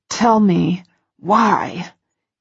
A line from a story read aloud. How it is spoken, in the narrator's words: He hisses, and I'm vaguely aware that it's through gritted teeth